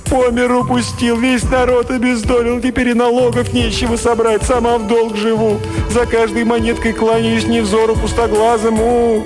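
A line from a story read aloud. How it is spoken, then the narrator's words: Sobbing. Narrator (Russian): зарыдала, словно у нее отобрали любимую куклу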